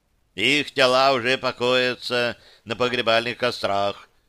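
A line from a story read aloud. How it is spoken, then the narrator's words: Dry. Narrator (Russian): Анубис сухо определил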